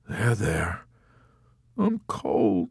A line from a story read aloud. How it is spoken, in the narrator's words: Snowden whimpered